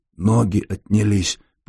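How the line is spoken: Frightened whisper. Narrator (Russian): прошептал Ларионов, испуганно

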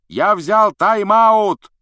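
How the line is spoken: Shouting. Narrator (Russian): прокричал Вуд

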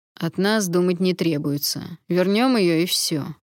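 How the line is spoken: Dry, curt remark. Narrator (Russian): сухо бросил главный

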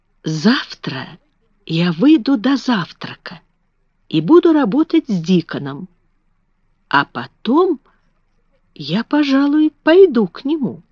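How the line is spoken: Sleepy murmur into pillow. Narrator (Russian): Положив голову на подушку, она пробормотала

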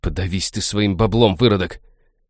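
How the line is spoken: Monster's growl in face. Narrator (Russian): рыкнул ему в самое лицо

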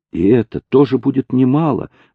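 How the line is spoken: Smiling exclamation. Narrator (Russian): воскликнула Луиза, улыбаясь

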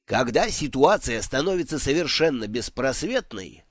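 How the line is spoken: Snorting remark. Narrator (Russian): хмыкнул Дидактилос

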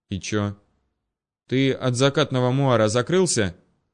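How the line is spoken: Pointedly dismissive, through teeth. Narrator (Russian): Демонстративно глядя в сторону, процедил Кузнецов

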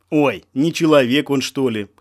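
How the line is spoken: Laughing. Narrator (Russian): хохотнул Болев

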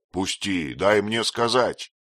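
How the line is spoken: Shouted. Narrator (Russian): крикнул он Этьену

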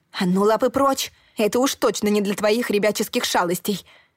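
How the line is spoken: Barked reprimand. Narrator (Russian): рявкнула я

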